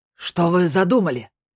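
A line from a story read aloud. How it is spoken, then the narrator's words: Hoarse shout. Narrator (Russian): хрипло крикнул Герлах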